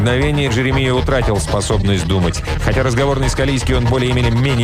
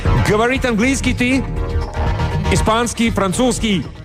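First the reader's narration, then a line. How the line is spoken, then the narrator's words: Heavily accented Spanish. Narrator (Russian): Пилот заговорил по-испански с сильнейшим акцентом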